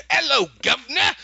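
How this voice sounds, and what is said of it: Stereotypical cockney British accent. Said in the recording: “could you do a British accent? ... some cockney, stereotypical Dickensian ... kind of accent”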